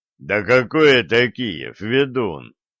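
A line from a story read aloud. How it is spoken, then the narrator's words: Scoffing boyar. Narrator (Russian): хмыкнул боярин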